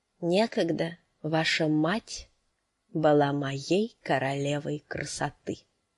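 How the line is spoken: Quiet man's voice. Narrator (Russian): негромко проговорил мужчина

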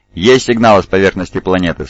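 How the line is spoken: Plain. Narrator (Russian): спросил Джонсон

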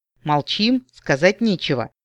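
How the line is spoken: Stern. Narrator (Russian): строго спросил Эрин

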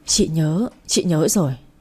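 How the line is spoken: Trembling voice. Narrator (Vietnamese): Chị Hồng nói giọng run run

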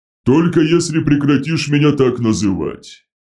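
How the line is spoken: Grumbling. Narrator (Russian): проворчал Дредноут

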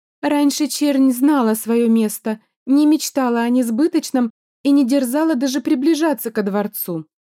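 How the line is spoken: Feigned sigh. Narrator (Russian): наигранно вздохнула одна из дам

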